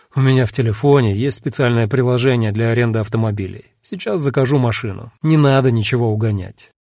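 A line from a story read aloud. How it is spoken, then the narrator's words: Resigned sigh. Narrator (Russian): Эда, обреченно вздохнув, сказал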